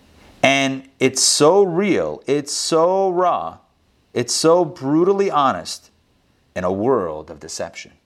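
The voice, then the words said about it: Movie trailer voice. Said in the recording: “That's my trailer voice”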